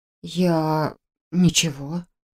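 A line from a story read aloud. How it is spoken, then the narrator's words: Puzzled mumble. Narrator (Russian): пробормотала я недоуменно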